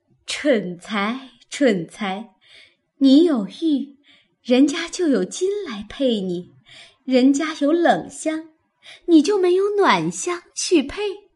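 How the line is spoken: Laughing sigh. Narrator (Chinese): 黛玉……笑叹道

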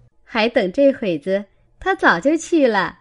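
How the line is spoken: Laughing speech. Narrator (Chinese): 琥珀笑道

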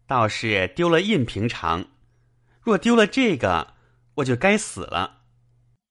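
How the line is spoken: Laughing. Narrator (Chinese): 宝玉笑道

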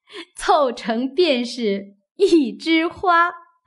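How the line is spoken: Laughing. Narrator (Chinese): 鸳鸯笑道

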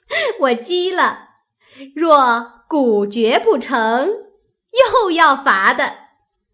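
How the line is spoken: Laughing. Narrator (Chinese): 湘云笑道

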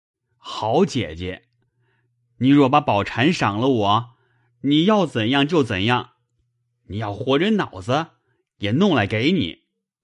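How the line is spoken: Drunken, laughing. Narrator (Chinese): 薛蟠…帐酒盖脸…笑道

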